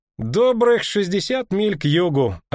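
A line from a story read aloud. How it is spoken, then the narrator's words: Carefree, cheerful voice. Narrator (Russian): оценил Лютик довольно беспечным и даже веселым голосом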